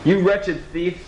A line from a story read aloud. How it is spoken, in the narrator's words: cried